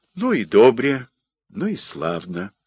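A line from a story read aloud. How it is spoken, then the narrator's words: Gentle, affectionate. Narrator (Russian): ласково сказал отец Серафим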